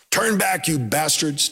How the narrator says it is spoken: Tom shouted

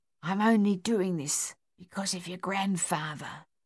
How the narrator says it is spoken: the housekeeper whispered

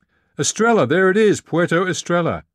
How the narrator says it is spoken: Dana shouted

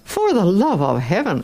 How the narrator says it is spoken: exclaimed Don Camillo

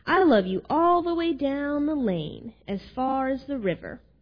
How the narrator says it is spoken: cried Little Nut Brown Hair

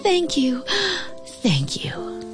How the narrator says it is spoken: whispering

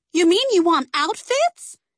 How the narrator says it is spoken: Cece cried

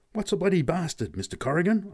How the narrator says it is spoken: gasped at last

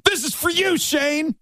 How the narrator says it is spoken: being dumb, drunk 20-year-olds, we convinced our buddy, the one who had a girlfriend, to yell out

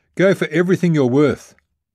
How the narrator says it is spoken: I yelled at Dana

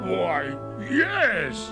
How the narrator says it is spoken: gasped the bear

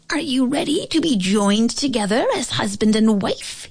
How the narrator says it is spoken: He squeaked

